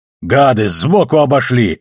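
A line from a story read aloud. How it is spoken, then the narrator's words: Barked. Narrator (Russian): рявкнул Амос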